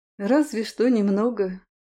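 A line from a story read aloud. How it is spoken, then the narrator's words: Sighing goddess. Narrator (Russian): вздохнула богиня плодородия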